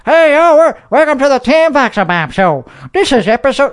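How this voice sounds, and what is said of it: Fake Southern Texan accent. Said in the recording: “I talk in a Texan, where I talk in a fake Southern accent.”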